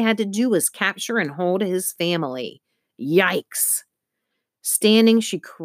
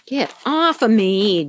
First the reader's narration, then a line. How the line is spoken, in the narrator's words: Juby giggled